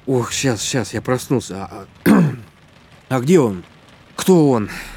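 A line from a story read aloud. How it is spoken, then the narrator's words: Nervous exhale. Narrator (Russian): Лиза нервно выдохнула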